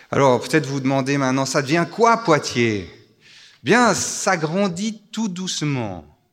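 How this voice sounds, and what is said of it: Slight Swiss French accent. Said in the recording (French): “vous entendez, j'ai un petit accent, je suis suisse”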